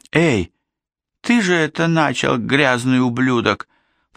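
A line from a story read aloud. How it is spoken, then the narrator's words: Moan. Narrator (Russian): простонала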